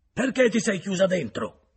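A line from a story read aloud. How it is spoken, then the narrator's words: Shouting. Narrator (Italian): gridò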